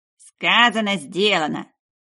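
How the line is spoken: Grumbling boar. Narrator (Russian): проворчал хряк

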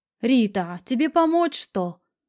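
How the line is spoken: Shout toward another room. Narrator (Russian): крикнула она в сторону гостиной

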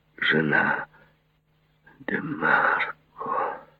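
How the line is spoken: Whispered. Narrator (Russian): прошептал он

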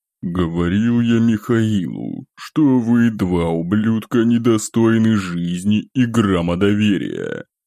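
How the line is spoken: Venomous words through teeth. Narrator (Russian): процедил князь, будто выплевывая слова, как яд, скопившийся за годы

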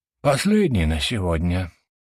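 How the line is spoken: Man sighing. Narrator (Russian): вздохнул мужчина

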